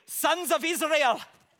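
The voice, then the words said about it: Bad put-on Scottish accent. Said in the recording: “That's the worst Scottish accent ever.”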